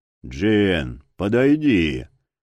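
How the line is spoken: Booming voice filling arena. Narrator (Russian): прогудел на всю арену голос Верховного

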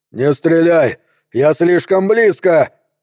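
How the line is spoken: Hoarse wheeze. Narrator (Russian): просипел он

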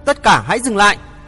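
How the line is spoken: Urgent loud shout. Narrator (Vietnamese): Chàng vội cất tiếng quát to

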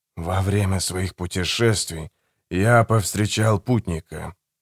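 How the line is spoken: Whispering. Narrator (Russian): прошептал Барус

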